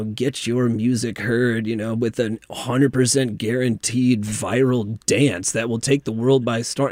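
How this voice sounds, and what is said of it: Mock radio announcer voice. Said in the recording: “You have a good radio voice for that.”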